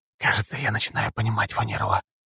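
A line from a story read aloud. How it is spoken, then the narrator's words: Whispered. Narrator (Russian): прошептал Дима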